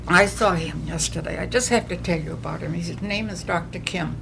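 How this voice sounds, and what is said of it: New England accent. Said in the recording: “I still have my New England accent”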